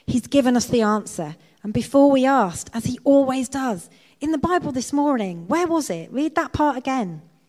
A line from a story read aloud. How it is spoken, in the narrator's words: Betsy then exclaimed excitedly